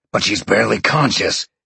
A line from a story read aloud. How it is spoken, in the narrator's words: Sean growled